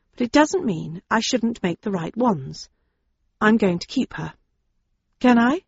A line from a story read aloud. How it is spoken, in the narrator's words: I said quietly